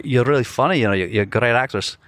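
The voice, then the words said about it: Put-on Scottish accent. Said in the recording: “I'm going to be Duncan from Glasgow ... My accent was definitely better than it is right now ... Your accents are good, dude ... a Scottish accent”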